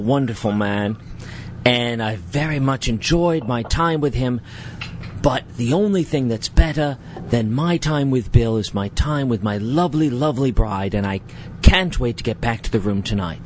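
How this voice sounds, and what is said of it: Somewhat British put-on accent. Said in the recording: “my husband now has a somewhat British accent”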